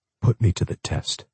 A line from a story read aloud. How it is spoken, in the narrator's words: whispered